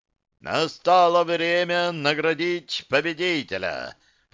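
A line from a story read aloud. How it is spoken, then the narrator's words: Booming announcer voice. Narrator (Russian): прогремел невидимый комментатор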